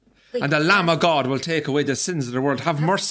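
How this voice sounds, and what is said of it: Priest-like solemn intoning voice. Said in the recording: “Do I sound like a priest? ... what does a priest sound like? ... Kind of like that.”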